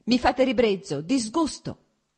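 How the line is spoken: Shouting, growing more heated. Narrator (Italian): gridò lei riscaldandosi ancora di più

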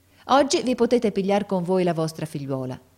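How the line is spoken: Plain. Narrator (Italian): disse la maestra

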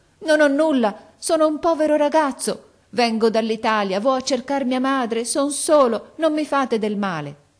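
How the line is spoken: Frantic desperate shout. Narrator (Italian): egli smarrì la ragione e, correndogli incontro con le braccia aperte, gridò

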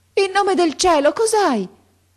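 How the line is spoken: Old woman shouting. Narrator (Italian): gridò la vecchia

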